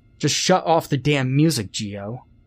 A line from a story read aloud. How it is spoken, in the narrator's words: Warren snapped